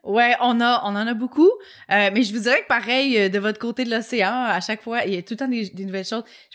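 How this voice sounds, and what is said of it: Québécois French accent. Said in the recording (French): “l'accent québécois”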